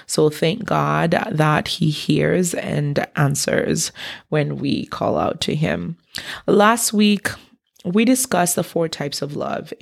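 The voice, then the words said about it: Hoarse voice recovering from laryngitis. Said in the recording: “Please excuse the change in my voice. I am recovering from laryngitis.”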